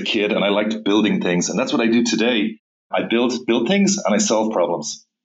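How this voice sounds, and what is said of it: Irish accent. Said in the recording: “I have a funny Irish accent ... in Dublin, Ireland, when I say three, it sounds like tree”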